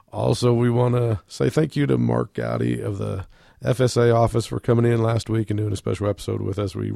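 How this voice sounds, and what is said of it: Croaky, under-the-weather voice. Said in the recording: “apologize for my voice. ... I've been a little under the weather, so I know it's a little bit croaky”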